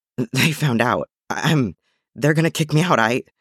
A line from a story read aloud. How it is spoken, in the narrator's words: Once Obi-Wan's breathing had calmed enough for him to speak, he choked out